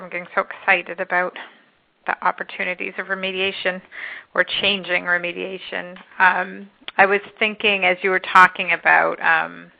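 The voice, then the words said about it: Hoarse, strained voice. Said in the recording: “Sorry, I'm losing my voice there.”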